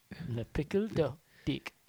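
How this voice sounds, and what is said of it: Bad put-on French accent. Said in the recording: “that was the worst French accent ever”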